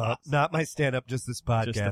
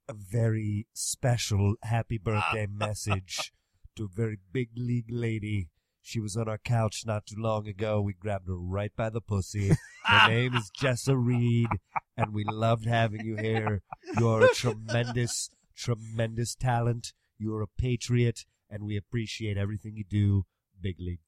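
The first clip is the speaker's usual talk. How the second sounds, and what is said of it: Donald Trump impression. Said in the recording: “your Trump impression”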